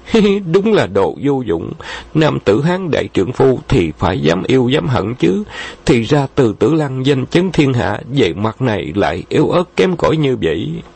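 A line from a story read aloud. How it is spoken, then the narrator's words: Giggling. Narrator (Vietnamese): Thạch Thanh Tuyền che miệng cười khúc khích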